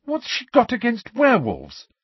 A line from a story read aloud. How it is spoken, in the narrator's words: said Hermione angrily